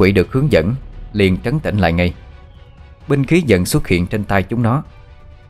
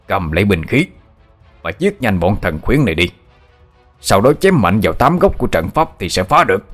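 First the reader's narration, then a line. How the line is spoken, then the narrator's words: Sudden roaring command. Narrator (Vietnamese): lão Hai đột ngột … gầm lên ra lệnh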